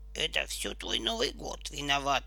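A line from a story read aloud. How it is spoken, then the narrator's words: Muttered. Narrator (Russian): буркнул он Кокосику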